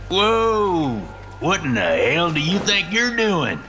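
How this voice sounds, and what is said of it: Thick Southern US twang. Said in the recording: “with a thick southern twang”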